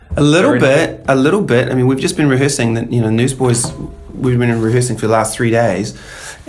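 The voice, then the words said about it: Strained, fried singer's voice. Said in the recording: “my voice is a little bit fried ... singing real hard”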